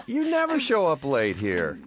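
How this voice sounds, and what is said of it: Sarcastic tone. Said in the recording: “That was sarcasm.”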